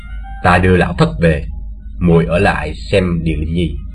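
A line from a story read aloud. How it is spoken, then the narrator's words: Quiet, soft. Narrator (Vietnamese): Lão khẽ bảo Tu Như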